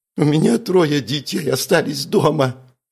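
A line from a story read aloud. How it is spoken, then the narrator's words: Sobbing. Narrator (Russian): с рыданиями выдала Марина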